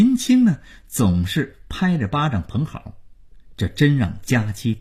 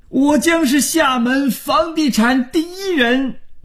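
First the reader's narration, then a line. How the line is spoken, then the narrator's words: Drunken shout. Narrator (Chinese): 手里总是醉的，每天对着大海喊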